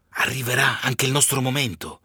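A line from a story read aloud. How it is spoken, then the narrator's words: Whisper. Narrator (Italian): sussurro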